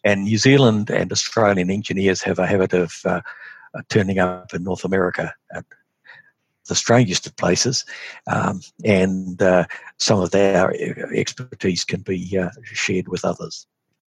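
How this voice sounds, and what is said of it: New Zealand accent. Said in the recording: “your accent usually gets questioned for the wrong country sometimes as well. I think maybe UK”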